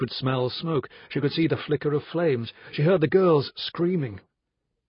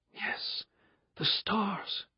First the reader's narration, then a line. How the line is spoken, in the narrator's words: she whispered